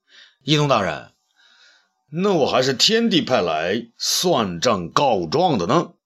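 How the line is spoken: Loud. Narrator (Chinese): 东方朔高声说

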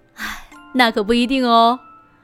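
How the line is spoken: Mother, laughing. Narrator (Chinese): 妈妈笑着说

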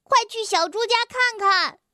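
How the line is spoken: Loud shout. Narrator (Chinese): 弗洛格用力地叫着

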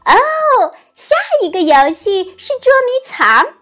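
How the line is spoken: Shouting. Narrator (Chinese): 温妮喊道

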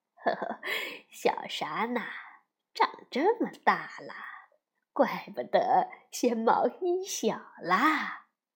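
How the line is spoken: Grandmother's happy laughing speech. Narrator (Chinese): 奶奶并没有生气，反而高兴地笑着说

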